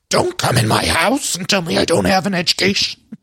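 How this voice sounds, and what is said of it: Gravelly Cookie Monster-like impression. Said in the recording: “my Luann impression again ... it's basically just Cookie Monster ... Cookie Monster mixed with a little Yoda”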